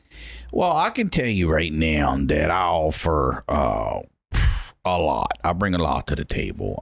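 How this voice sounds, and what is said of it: Thick Baltimore accent. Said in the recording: “two bros with thick Baltimore accents ... That's the accent I was just doing”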